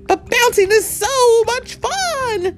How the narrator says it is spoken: Tigger cried

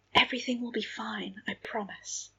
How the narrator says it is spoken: she whispered, smiling

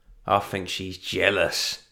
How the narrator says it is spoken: he grunted, wincing

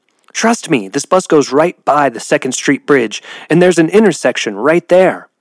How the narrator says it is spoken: Blackberry shouted back

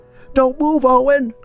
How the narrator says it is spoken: cried Julia from an open window

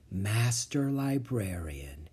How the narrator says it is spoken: he whispered

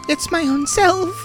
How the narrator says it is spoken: sobbed the fairy child

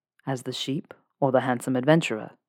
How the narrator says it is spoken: chuckles

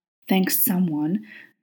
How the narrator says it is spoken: Crowley hissed

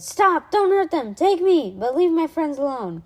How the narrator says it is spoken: Alexander shouted

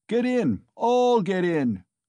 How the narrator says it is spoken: cried Mikolka

